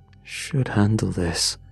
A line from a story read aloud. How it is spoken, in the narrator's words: muttered